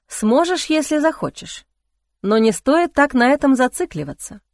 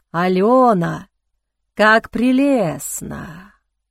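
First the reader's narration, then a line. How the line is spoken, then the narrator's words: Hissing mental voice. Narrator (Russian): его мысленный голос звучал с еще большим шипением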